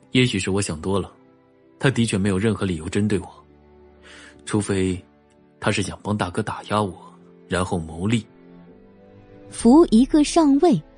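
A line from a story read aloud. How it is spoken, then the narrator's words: Flat, after a pause. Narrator (Chinese): 荣寒生沉默了一会儿，淡淡道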